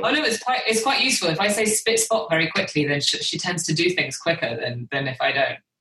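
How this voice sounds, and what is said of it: British accent. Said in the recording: “I'm the anomaly in my family. I'm the one with the British accent.”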